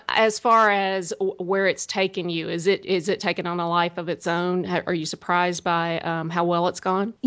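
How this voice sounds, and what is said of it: Southern US accent. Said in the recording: “I've got a Southern accent. I know it's hard to understand.”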